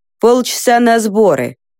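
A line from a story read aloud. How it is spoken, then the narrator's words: Warrior's dry stern announcement. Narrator (Russian): сухо и строго сообщил воин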